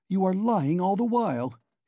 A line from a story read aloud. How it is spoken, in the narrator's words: he cried